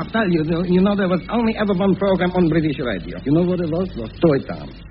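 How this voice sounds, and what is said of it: Foreign accent. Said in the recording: “I can tell by your accent you don't come from round here.”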